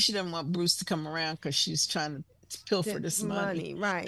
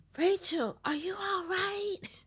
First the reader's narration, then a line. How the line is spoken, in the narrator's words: That yelling, whispering thing